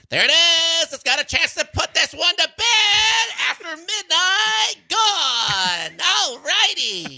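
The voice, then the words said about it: Impression of broadcaster Jenny Kavnar. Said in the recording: “your impression of Jenny Kavnar on Nick Kurtz home run ... I think you went Susie Waldman there ... I didn't have the New York accent ... more Susie Waldman than Jenny Kavnar”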